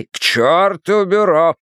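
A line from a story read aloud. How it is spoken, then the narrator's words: Growled. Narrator (Russian): прорычал Хардвик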